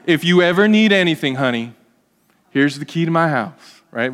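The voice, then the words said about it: Put-on Southern US accent. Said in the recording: “With a southern accent.”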